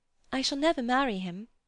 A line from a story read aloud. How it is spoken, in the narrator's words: quavered Lucy